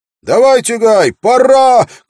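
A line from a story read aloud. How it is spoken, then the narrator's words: Shout. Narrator (Russian): крикнул Уилл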